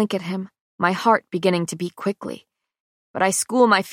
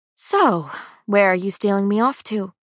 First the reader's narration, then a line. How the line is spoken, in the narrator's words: I sigh before asking